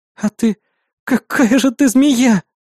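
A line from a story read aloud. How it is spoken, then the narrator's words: Hateful breathy exhale. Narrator (Russian): выдохнула она с ненавистью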